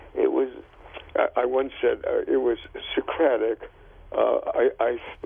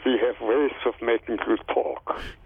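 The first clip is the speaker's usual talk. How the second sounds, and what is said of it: Put-on German accent. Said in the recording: “in a German accent”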